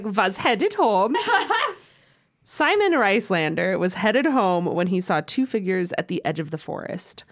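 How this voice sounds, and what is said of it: Put-on German accent while reading. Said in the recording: “I kept doing it in the German accent”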